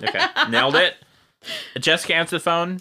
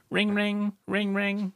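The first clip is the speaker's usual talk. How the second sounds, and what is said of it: Voice imitating a ringing phone. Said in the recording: “I was gonna try to do a ring ring voice.”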